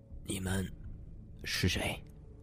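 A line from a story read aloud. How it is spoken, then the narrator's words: Hoarse, injured. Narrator (Chinese): 叶钟明的声音很哑，这么一说话，喉咙就有些血腥气上涌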